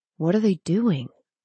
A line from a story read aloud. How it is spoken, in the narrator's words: Zane whispered